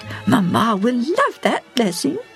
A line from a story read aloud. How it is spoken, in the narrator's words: she squealed quietly